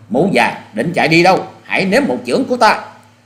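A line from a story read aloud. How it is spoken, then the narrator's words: Loud shout. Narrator (Vietnamese): Hoa Sĩ Kiệt quát to lên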